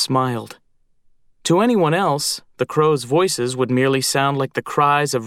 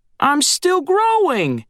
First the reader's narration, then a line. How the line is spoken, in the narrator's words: said Screech, flapping indignantly